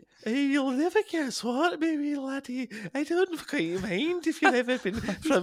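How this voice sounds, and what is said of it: Soft, wispy put-on Scottish accent. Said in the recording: “my Scottish impression ... so ethereal and wispy this time. ... hey softly spoken. ... only whisper in sweet nothings.”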